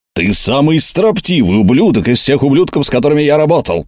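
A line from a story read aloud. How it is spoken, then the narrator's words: Bellowing roar. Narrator (Russian): проревел, как подпаливший брюхо бизон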